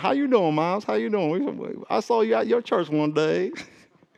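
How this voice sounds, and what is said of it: Imitated North Carolina Southern accent. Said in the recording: “I met a guy from North Carolina... forgive me if I offend you because I'm going to get your accent wrong”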